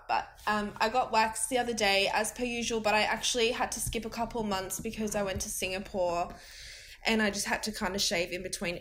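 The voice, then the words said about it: Sick, rough-sounding voice. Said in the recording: “I'm quite sick at the moment, so my voice is quite fucked up.”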